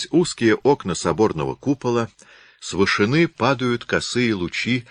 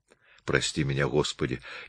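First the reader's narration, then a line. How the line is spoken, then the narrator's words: Barely audible whisper. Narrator (Russian): едва слышно шептала она про себя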